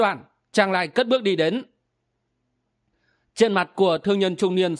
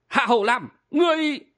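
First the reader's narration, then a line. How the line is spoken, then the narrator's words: Middle-aged man, gritted-teeth shout. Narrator (Vietnamese): Thương nhân trung niên biến sắc, y nghiến răng quát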